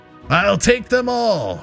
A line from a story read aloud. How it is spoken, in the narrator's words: she shrieked, her voice a cacophony of anguish and fury